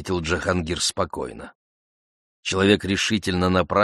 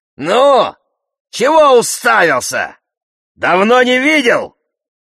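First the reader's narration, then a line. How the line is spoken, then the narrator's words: Angry yet cheerful shout. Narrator (Russian): закричал зло и весело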